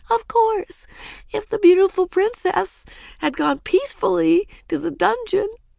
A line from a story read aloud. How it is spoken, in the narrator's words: Daisy smiled shakily, and said